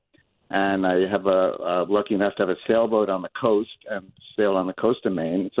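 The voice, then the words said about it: New Jersey accent. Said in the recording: “I grew up in New Jersey. ... You can tell by my accent, probably.”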